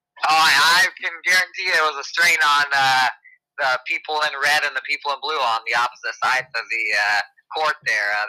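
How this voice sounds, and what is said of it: Raspy, strained, nearly lost voice. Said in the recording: “raspy voice. I think my voice has about a day left in it before it's all the way gone.”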